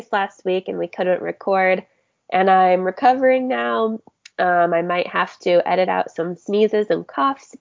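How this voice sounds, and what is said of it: Raspy, recovering lost voice. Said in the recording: “raspy, cute, sexy voice. ... I lost my voice”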